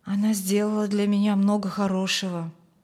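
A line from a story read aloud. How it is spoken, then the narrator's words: Quiet. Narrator (Russian): тихо произнес Фрэнк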